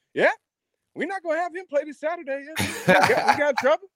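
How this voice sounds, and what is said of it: Imitates another person's voice. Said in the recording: “That's a great Spurrier impression”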